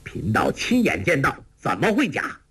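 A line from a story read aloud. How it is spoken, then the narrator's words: Angry. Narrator (Chinese): 丘处机怒道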